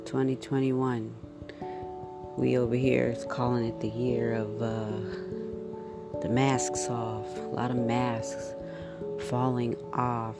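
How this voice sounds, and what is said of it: Low, down-feeling voice. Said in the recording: “I'm sure you can hear it in my voice. Meh today.”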